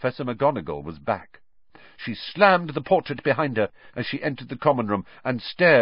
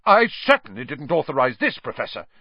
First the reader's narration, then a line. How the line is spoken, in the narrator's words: said Percy, puffing himself up indignantly